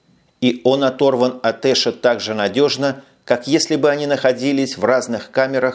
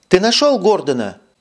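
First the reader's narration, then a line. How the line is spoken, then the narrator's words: Exclaiming. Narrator (Russian): воскликнула, увидев его Карара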